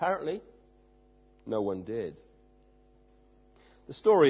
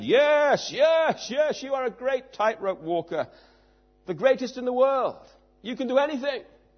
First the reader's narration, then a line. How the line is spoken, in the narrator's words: The crowd enthusiastically shouted